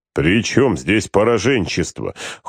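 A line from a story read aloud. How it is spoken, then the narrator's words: Cold objection. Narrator (Russian): холодно возразил Гродов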